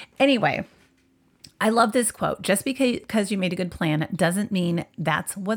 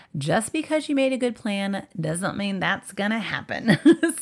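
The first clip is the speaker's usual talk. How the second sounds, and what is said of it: Light put-on country accent. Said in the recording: “for some reason I had an accent. I guess I was early Taylor Swift just now, with a little bit of country accent”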